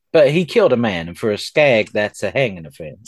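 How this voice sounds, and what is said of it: Bad put-on accent. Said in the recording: “this bad accent”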